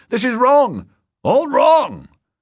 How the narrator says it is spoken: the deputy governor shouting

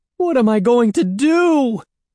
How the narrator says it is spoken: wailed, pacing the room nervously

